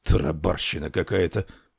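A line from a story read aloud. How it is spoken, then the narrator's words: Grumbled. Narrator (Russian): проворчал Рекс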